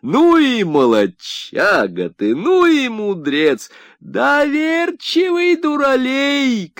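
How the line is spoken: Shouting, wife. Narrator (Russian): кричала его жена

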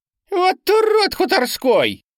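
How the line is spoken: Squeaky shout, small boy. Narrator (Russian): выкрикнул писклявым голоском самый мелкий из компании драчунов

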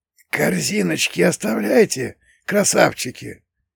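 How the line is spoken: Hoarse wheezing thug. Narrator (Russian): просипел один из шакалов

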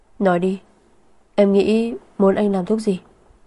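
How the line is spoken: Sighing, smiling question. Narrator (Vietnamese): Liên Thanh Ngôn thở dài, cười hỏi

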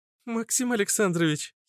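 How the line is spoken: Giggling. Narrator (Russian): хихикнула Аглая

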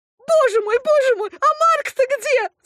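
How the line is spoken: Woman screaming in alarm. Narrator (Russian): закричала принцесса

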